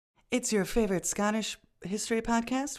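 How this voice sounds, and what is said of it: Public radio announcer voice. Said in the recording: “I'm doing my NPR voice ... it's pretty impressive”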